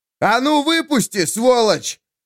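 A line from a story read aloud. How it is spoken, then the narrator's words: Angry yell. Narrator (Russian): заорал Ярослав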